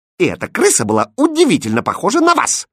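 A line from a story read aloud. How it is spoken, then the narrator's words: Snapping retort. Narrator (Russian): огрызнулась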